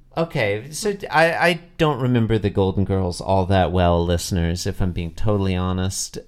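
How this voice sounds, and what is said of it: Usual voice. Nothing is said of it.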